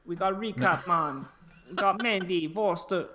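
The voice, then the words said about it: Attempted Jamaican accent. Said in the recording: “a Jamaican accent. ... I can't do it.”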